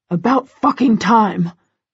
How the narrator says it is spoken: Christian growls at her

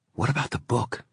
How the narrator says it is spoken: she'd whispered

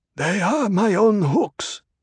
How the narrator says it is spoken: Shishakli said in a husky voice

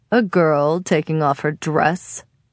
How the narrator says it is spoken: he says to more laughter

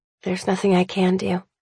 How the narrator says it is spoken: I mutter

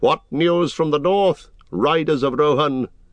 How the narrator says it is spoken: Aragorn stood up and called in a loud voice

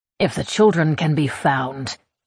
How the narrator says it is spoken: he growls

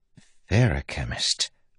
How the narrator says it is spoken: Wayne said softly

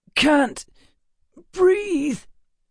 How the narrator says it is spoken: Emma groaned

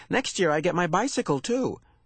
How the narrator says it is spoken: she added more cheerfully

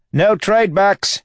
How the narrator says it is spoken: Wayne shouted, running for all he was worth

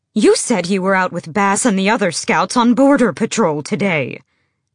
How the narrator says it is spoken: Emrys barked

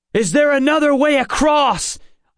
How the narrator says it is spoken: I shouted

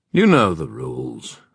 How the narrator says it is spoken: said the king in a bored tone

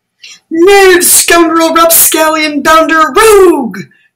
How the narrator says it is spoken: shouted Prince Bolo

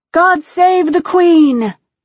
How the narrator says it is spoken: the people around me shouted

